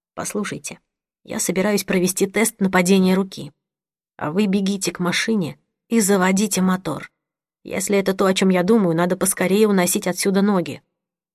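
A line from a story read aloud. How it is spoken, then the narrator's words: Quiet. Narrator (Russian): Сэм тихо сказал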